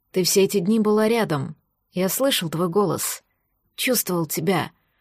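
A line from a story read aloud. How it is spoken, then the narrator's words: Whispered. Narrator (Russian): прошептал Рис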